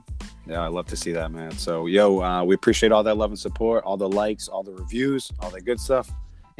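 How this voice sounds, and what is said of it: Hoarse, worn-out voice. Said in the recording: “My voice is still, you know, we were going hard Tuesday cheering the home team on. So my voice is a little shot still”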